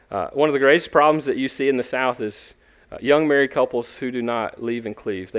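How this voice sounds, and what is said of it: Southern US accent, Georgia-Florida. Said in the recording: “I grew up in the South. You can probably tell by my accent, although it's not Texan. It's actually South Georgia, North Florida accent.”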